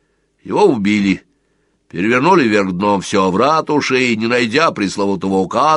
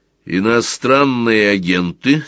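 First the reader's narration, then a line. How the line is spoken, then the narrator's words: Rough question. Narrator (Russian): спросил Сварог грубо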